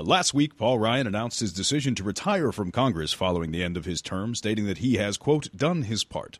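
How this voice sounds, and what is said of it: News anchor voice. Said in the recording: “slip on my anchor voice uh, to do the news and attempt to strangle this regionally specific accent”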